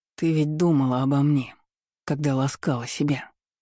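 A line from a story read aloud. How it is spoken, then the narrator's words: Hoarse voice. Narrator (Russian): Его сиплый голос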